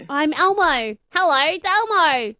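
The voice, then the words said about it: Squeaky American-accented character voice. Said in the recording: “I'm with an American accent ... I'm speaking an American accent. Now I make it squeaky.”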